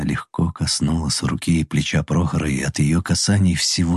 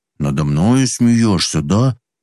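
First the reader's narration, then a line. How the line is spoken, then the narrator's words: Mock-angry grumble. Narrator (Russian): Притворно сердито проворчал Прохор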